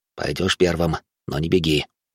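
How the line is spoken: Whispered. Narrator (Russian): Баженов шепнув

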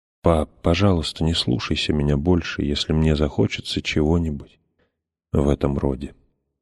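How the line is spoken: Whispered. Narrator (Russian): прошептала отцу

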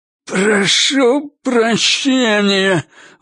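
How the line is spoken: Forced out hatefully. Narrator (Russian): выдавил он с ненавистью

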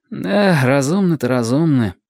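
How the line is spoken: Mumbling. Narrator (Russian): промямлил

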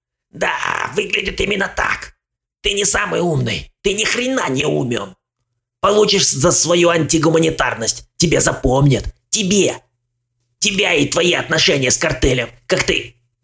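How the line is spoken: Angry spluttering rasp. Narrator (Russian): Брызгая слюной, он зло прохрипел

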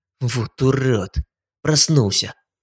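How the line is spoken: Muttered. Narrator (Russian): Пробормотал Шнайдер

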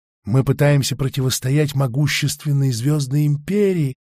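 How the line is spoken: Sighed. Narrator (Russian): вздохнул Амонд

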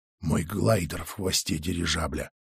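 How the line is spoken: Hoarse, broken voice. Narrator (Russian): сказала Мар хрипло, будто в ней что-то надломилось

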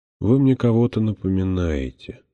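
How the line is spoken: Quiet. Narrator (Russian): сказал он тихо

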